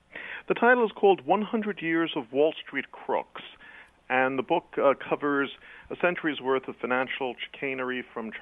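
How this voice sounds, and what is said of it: Slight British-sounding accent. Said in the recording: “Is that British? ... Your accent? ... it's uh, quasi-British. I'm a British heritage, but I was born in New York City.”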